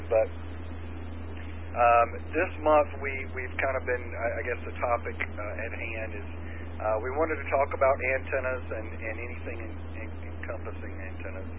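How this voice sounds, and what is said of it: Strained, nearly lost voice. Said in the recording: “I'm on the verge of losing my voice.”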